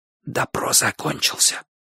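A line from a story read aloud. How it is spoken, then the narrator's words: Whisper. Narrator (Russian): шепнул Бочу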